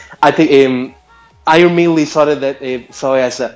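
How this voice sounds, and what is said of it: Usual voice. Nothing is said of it.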